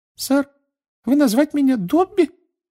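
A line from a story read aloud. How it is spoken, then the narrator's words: Curious squeak. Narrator (Russian): с любопытством пискнул эльф между пальцев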